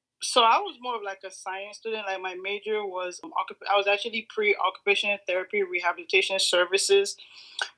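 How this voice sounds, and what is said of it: Slight Nigerian accent. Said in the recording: “a little bit of an accent? ... I'm from Nigeria”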